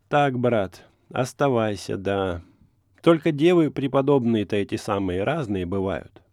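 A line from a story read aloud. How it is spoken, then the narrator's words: Sighing. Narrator (Russian): вздохнула она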